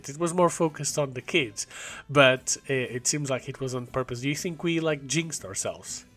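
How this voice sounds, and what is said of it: Rough, sick-sounding voice. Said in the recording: “we're both pretty ill ... as you can probably tell by my voice, by your voice, it's been a little bit rough”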